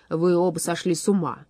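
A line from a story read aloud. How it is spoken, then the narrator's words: Grumbling declaration. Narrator (Russian): заявил он ворчливым голосом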